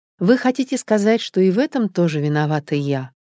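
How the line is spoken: Calm question. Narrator (Russian): спокойно спросила Наташа

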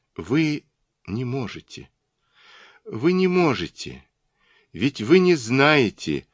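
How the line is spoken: Ashamed, faltering babble. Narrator (Russian): как будто стыдясь, и пролепетала упавшим голосом

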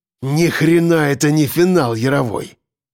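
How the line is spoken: Hissing. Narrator (Russian): прошипел он

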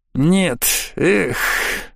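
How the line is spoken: Sigh. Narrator (Russian): вздохнул он

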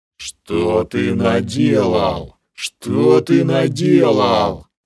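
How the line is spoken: Furious roar. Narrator (Russian): Проревела кобра, в бешенстве

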